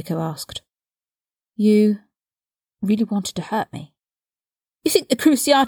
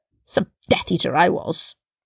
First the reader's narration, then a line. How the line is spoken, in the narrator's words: he spat